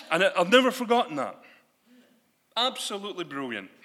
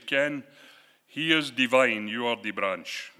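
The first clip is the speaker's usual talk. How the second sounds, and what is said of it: Attempted Jamaican accent, admittedly imperfect. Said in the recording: “he used to say this in his Jamaican accent, and I can't do it, so forgive me. I can't get the accent right ... Fantastic with his Caribbean accent.”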